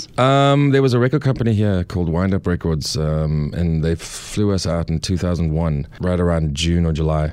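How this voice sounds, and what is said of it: South African accent. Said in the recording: “You have a lovely accent from where? ... I'm from South Africa.”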